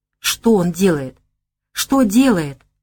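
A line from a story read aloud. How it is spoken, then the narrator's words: Irritated whisper. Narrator (Russian): раздраженно шептал Богомолов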